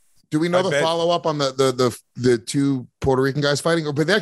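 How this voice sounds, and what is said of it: Usual voice. Nothing is said of it.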